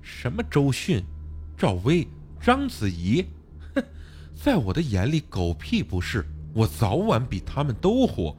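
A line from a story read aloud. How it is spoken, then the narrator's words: Slightly hysterical, woman. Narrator (Chinese): Z 小姐那略带歇斯底里的声音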